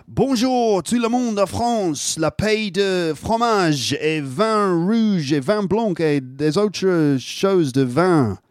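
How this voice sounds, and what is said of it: French spoken with strong English accent. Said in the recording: “a bit of French with a horrible English accent ... You speak with a bit of an English accent”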